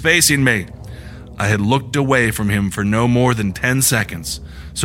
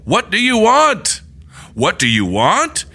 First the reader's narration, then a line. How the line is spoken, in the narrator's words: in an angry, commanding tone